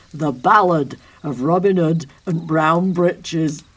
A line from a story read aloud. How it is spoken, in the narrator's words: John bellowed